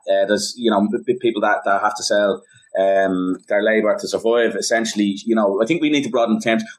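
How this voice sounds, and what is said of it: Dublin working-class Irish accent. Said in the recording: “people tend to think of someone with my accent ... my dialect, certain values are a hangover, let's say, from the industrial proletariat in Dublin”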